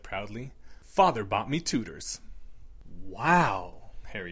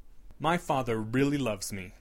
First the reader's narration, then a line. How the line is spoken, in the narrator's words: Draco said firmly